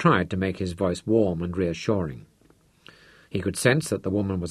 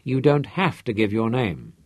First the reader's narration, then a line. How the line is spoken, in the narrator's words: he told her quickly